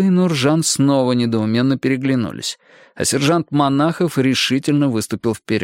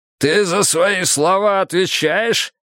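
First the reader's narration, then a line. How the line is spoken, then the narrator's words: Growled. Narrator (Russian): рыкнул и Миха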